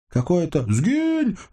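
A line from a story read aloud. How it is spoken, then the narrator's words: Hungover man shouting. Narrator (Russian): закричал мужичок, и Сашка поняла, что он много пил вчера, а, может быть, и позавчера тоже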